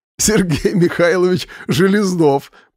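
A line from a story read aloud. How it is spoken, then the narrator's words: Laughing while speaking. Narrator (Russian): продолжал смеяться Вадим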